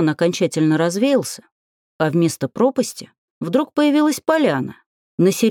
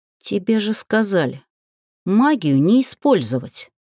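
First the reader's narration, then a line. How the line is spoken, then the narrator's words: Muttered through teeth. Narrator (Russian): Процедила я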